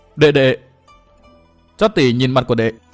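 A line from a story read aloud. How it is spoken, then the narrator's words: Trembling voice. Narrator (Vietnamese): Phan Tiểu Nương run run nói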